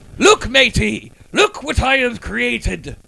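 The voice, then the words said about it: Old-fashioned British pirate accent. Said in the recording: “He's a pirate? ... is this a British pirate? ... Why is your British accent... from 300 years ago”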